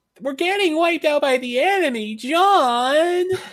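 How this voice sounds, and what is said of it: Impression of the character Utah. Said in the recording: “That's very close to what he sounds like. That's a good imitation.”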